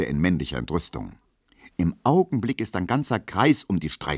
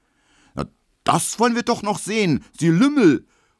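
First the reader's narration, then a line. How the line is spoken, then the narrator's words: Furious shout. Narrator (German): ruft Emil Kubinke, rot wie ein Puter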